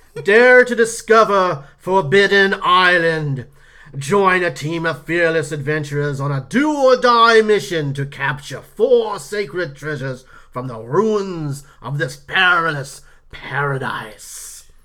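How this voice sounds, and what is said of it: Dramatic put-on reading accent. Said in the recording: “does it actually say it in that accent?”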